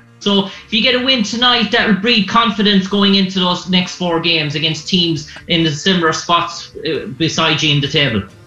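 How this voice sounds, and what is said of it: Irish accent. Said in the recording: “an Irish reporter ... I like your accent. It's tough. ... I want to learn how to talk like that ... I was too much listening to your accent.”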